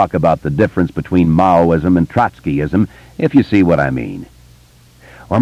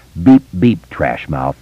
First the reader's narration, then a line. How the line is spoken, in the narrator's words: Bill said solemnly